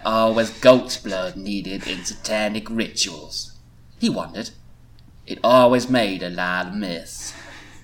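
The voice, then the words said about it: Character accent, almost Forrest Gump-like. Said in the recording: “my Jack accent ... almost Forrest Gump, like...”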